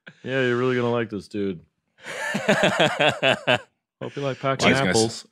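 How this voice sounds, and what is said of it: Imitates another person's voice. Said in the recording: “do a Larry Bird impression ... it wasn't even anything ... Kind of sounds like Hank Hill”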